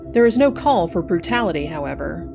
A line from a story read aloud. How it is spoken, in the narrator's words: exclaimed the convict